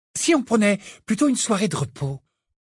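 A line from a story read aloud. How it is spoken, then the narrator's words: Cheerful tone. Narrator (French): proposa Hermione d'un ton allègre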